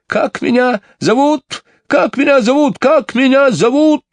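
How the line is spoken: Shrill anxious bird cry. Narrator (Russian): пронзительно закричал скворец, чувствуя какое-то беспокойство

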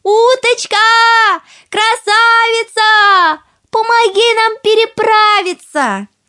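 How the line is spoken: Calling out. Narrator (Russian): крикнула уточке

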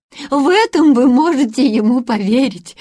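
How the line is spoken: Impatient exclamation. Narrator (Russian): воскликнула тетушка Бринкер, не утерпев

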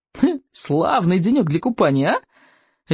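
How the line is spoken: Cheerful call. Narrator (Russian): весело окликнула она

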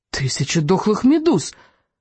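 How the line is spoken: Small creature exclaiming. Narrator (Russian): воскликнул рыбьенок

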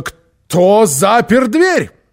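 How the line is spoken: Roaring. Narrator (Russian): взревела

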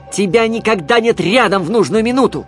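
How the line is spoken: Shouted. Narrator (Russian): крикнул я

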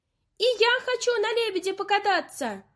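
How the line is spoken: Shouting. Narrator (Russian): закричала Ойка

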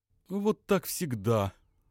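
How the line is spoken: Young woman's playful sigh. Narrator (Russian): шутливо вздохнула девушка

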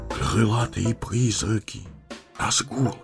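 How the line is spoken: Whisper. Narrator (Russian): прошептал Пипин

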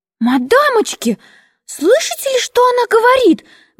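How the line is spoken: Shrill squeal, small woman. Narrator (Russian): взвизгнула крошка

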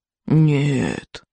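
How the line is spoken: Solemn old man. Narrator (Russian): торжественно обещал старый сморчок

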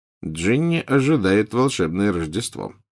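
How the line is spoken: Muttered. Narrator (Russian): пробормотал Фред

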